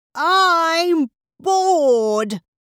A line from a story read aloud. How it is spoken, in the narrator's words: he roared